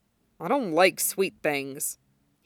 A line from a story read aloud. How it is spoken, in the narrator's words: he grumbled